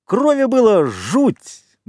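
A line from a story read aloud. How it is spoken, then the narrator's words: Laughing. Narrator (Russian): Джек захохотал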